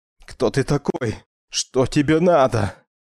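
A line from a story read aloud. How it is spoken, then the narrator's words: Desperate hoarse wheeze. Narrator (Russian): В отчаянии от собственной беспомощности хрипел Джоэл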